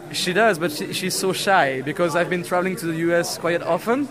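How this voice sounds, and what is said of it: French accent. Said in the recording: “his French accent, he is from France”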